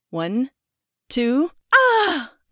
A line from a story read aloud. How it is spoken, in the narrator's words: I exclaimed